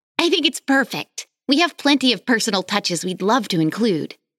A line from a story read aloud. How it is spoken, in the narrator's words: Alex exclaimed